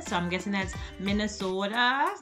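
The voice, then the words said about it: Terrible put-on Minnesota accent. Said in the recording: “I know that was terrible accent.”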